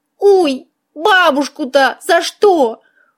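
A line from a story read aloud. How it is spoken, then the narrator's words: Sorrowful exclamation. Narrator (Russian): горестно воскликнула мышь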